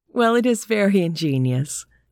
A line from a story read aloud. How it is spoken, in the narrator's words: I said, laughing